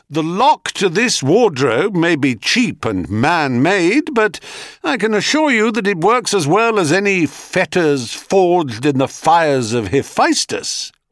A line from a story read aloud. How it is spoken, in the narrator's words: Sisyphus called out cheerily